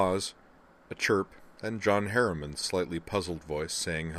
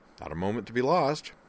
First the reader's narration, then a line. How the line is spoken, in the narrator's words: Griffin replied cheerfully